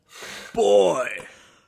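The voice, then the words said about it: Bad Kratos impression, sounds like a kid. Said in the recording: “That was my terrible impression of Kratos. ... Sound like a 13-year-old kid.”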